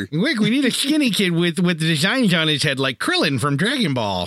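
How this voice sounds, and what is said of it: Unflattering impersonation of a character. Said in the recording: “my unflattering impersonation of Fanboy”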